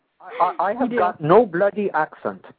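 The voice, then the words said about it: Imitated English accent. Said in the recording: “I got your accent ... English. ... it does kind of sound like you, actually ... it's not bad. It's not bad at all.”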